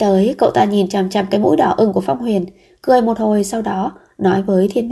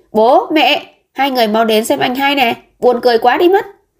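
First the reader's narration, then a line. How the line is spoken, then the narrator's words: Loud shout. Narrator (Vietnamese): lớn tiếng hét lên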